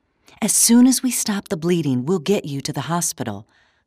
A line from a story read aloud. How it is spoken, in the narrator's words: Clara said in her soothing voice